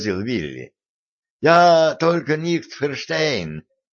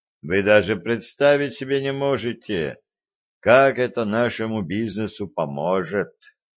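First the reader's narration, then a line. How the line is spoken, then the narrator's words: Gloomy. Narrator (Russian): мрачно сказал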